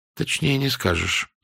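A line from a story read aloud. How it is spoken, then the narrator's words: Dry. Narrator (Russian): сказала она сухо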